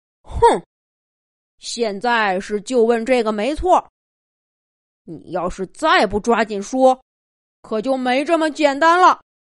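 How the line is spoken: Impatient roar, lion king. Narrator (Chinese): 狮子王不耐烦的吼了一句

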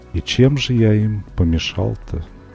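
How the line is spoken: Meek sighing quiet question. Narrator (Russian): Он кротко вздохнул и тихо спросил

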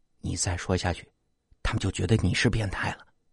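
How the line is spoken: Low quiet voice. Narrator (Chinese): 王亮低声跟我说

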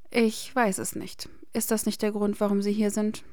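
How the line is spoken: Bitter voice. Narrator (German): sagte Hermine mit verbitterter Stimme

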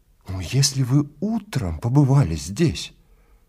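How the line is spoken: Agitated. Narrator (Russian): взволнованно заговорил Эглис

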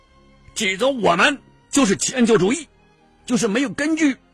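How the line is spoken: Angry, raised voice. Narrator (Chinese): 赫鲁晓夫对迁就主义的说法很恼火呀，脸孔涨红了，提高声音说道

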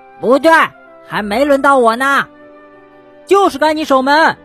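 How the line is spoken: Shouting. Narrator (Chinese): 跳跳喊道

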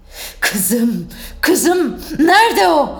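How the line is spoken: Shouting. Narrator (Turkish): diye bağırdı

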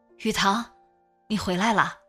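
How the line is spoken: Drowsy murmur. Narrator (Chinese): 瑞宇迷迷糊糊的 嘴里喃喃说一声

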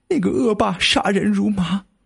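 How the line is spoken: Sorrowful crying. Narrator (Chinese): 张小爱的母亲听老伴这么一说，心生凄凉，这一边哭呢，一边就说了

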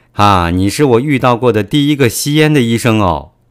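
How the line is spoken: Laughing. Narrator (Chinese): 毛又笑了说

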